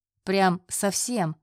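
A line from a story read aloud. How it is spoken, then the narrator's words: Short laugh. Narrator (Russian): хохотнул Андрей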